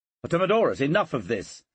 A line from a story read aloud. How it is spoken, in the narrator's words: said Caesar sharply